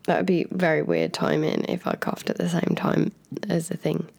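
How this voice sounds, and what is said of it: Croaky voice from a cold. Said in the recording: “my voice is kind of croaky anyway ... it's definitely croakier than usual ... You just had a wee cold”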